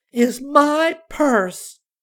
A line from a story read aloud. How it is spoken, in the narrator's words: she proclaimed dramatically